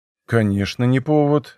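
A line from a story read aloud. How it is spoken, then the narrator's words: Calm. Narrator (Russian): ответил он спокойно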